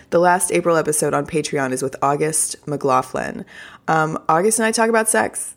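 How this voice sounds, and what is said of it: Scratchy, slightly odd voice. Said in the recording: “why is my voice so weird today? Can you guys hear this? ... Allergies. ... the weird throat scratchiness”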